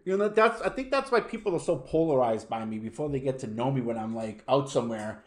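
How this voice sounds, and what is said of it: Boston accent. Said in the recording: “oh, that's an upstate New York accent? I'm like, no, this is a Boston accent.”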